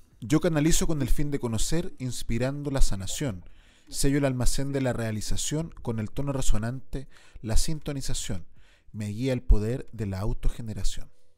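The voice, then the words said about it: Announcer voice. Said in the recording (Spanish): “voz de locutor”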